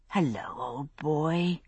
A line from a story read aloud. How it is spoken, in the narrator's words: I said under my breath